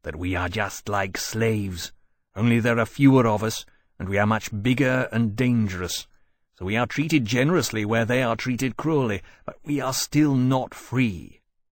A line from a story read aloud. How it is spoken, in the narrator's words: he added grimly, a suggestion of a low, growling anger beneath his voice